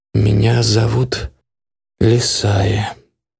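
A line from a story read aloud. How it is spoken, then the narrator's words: Very quiet. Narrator (Russian): очень негромко так произнесла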